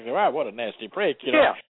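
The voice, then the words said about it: Sarcastic delivery. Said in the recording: “That's why I'm being sarcastic.”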